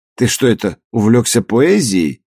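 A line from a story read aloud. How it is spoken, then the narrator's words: Mocking, masking anxiety. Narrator (Russian): насмешливо, чтобы скрыть накатившую тревогу, спросил Петков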